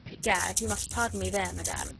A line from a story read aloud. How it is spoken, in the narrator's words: he protested coldly